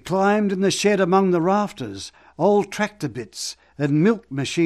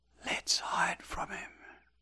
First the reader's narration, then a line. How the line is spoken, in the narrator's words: Billy whispered